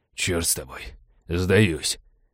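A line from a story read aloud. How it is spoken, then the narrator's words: Exhausted hoarse wheeze. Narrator (Russian): обессиленно прохрипел череп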